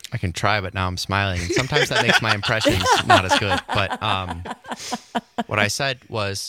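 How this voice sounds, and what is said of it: Usual voice. Nothing is said of it.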